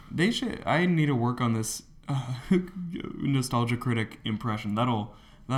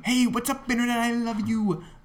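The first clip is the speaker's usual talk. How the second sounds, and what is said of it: Philip DeFranco impression. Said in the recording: “Today I'm gonna be doing Philip DeFranco.”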